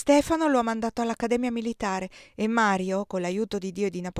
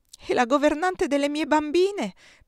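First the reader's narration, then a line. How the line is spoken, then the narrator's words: Whimpering. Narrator (Italian): piagnucolò Giulia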